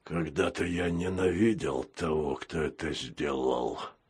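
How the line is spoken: Hoarse. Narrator (Russian): хрипло сказал капитан

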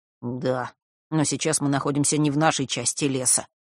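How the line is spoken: Grumbling. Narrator (Russian): пробурчал Фэш

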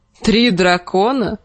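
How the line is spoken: Short laugh. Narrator (Russian): хохотнул Клиган

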